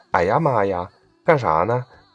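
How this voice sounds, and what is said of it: Imitated Northeastern Chinese accent. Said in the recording (Chinese): “大家会模仿东北人说话”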